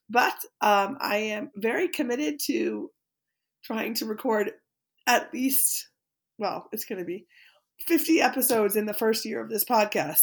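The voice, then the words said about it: Sick-sounding voice. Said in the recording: “You can probably hear from my voice that I am sick”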